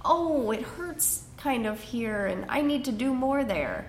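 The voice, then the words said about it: Whiny voice. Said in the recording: “that kind of whiny voice”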